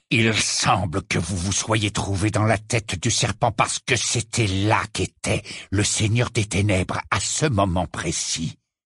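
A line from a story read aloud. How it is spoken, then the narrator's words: Growled. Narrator (French): gronda Rogue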